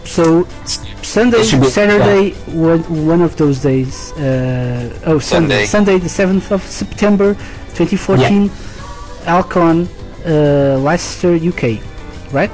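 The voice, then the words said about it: Portuguese-accented English. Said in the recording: “With my wonderful Portuguese accent.”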